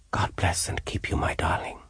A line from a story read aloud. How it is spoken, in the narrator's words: I whispered